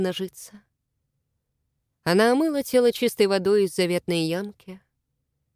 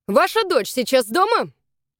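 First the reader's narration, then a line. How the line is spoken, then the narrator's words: Sharp question from officer. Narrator (Russian): резко спросил слуга закона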